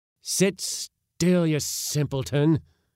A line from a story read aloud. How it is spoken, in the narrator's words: cried my uncle again